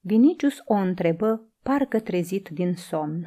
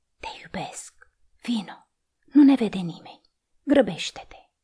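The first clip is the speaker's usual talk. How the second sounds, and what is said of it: Whispered line. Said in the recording (Romanian): “îi șopti”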